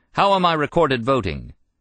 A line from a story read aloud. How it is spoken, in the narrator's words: Magnuson shouted